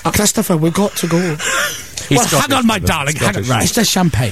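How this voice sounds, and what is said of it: Scottish-accented impression of another man. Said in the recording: “he's Scottish? ... that brilliant impression ... Actually, it's very good.”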